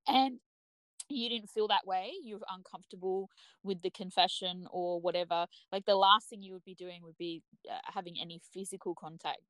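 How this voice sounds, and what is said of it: Strained, hoarse voice. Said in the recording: “sorry, I'm losing my voice”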